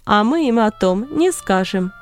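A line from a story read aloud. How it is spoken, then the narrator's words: Laughing. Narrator (Russian): засмеялся Варнава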